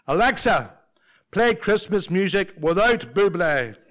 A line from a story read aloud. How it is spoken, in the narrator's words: He shouts again